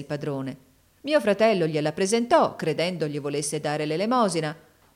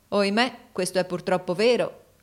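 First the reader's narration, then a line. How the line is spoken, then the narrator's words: Plain. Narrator (Italian): rispose mio fratello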